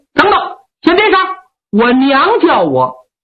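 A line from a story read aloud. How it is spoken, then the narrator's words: Hurried call. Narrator (Chinese): 苏和清…忙叫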